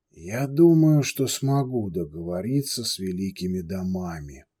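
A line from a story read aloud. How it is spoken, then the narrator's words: Quiet but very firm. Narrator (Russian): негромко, но очень твердо произнес Бруджа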